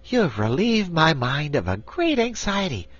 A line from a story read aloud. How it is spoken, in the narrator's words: declared the Patchwork Girl, now speaking more cheerfully